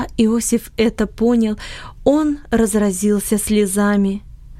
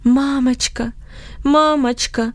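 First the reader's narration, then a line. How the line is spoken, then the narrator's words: Moaning. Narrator (Russian): стонал он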